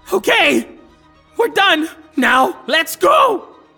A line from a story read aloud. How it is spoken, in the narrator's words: And they shout